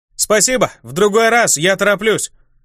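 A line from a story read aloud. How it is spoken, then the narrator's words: Shouted cheerfully. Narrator (Russian): крикнул я, улыбаясь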